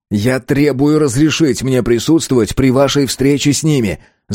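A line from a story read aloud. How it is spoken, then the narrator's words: Furious shout. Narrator (Russian): закричал Вардан от гнева, почти утратив контроль над собой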